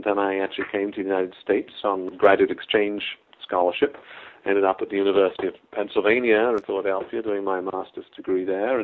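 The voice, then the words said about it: Non-American accent. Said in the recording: “your accent ... someone whose accent isn't from the U.S.”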